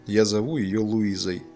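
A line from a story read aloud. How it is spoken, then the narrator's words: Plain. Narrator (Russian): сказал он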